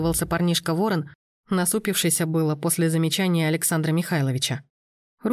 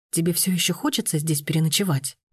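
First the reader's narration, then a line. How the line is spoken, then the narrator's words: Whisper. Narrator (Russian): ее шепота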